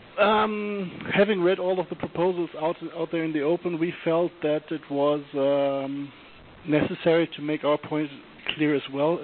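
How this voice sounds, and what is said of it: Congested voice from a cold. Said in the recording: “I have a little cold, so it might be a bit difficult to understand me”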